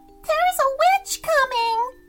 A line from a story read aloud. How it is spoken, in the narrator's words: screamed a lady